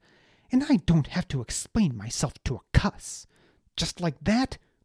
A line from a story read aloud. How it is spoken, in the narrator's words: Baz snapped